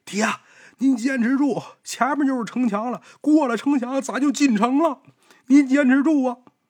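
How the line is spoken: Shouting while running. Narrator (Chinese): 王成一边跑一边喊

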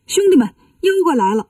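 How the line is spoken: Shouting. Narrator (Chinese): 孙悟空……大喊道

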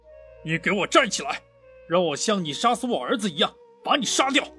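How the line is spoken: Monster's loud roar. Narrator (Chinese): 妖怪大声吼道

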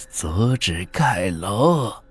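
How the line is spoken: Old voice, slight smile. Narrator (Chinese): 他嘴角微扬，声音苍老

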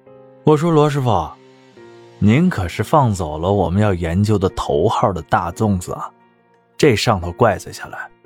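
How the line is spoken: Good-natured, smiling. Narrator (Chinese): 那男人却不生气，笑着说道

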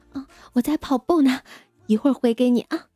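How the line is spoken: Heavy panting. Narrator (Chinese): 他喘着粗气说道

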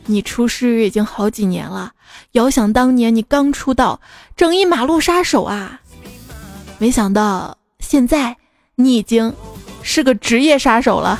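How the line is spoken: Soft sigh, calm. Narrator (Chinese): 教练也轻轻的叹了口气，淡淡的说

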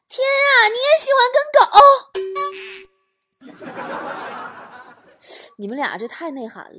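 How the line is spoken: Happy shout. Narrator (Chinese): 他高兴的大喊道

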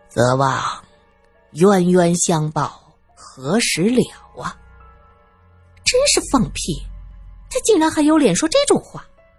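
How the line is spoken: Unbothered, smiling old lama. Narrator (Chinese): 那老喇嘛压根儿不当回事，笑眯眯的说道

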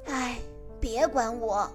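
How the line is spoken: Sighing. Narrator (Chinese): 鲸叹了一口气说

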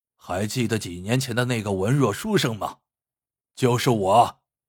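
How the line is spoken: Cold, big man. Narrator (Chinese): 大汉冷冷的说

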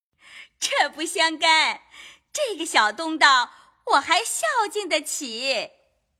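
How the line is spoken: Hasty laughing. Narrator (Chinese): 凤姐也忙笑道

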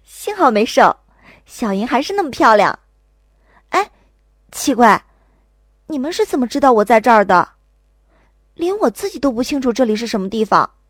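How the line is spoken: Giggling. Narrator (Chinese): 我痒得咯咯直笑，才道

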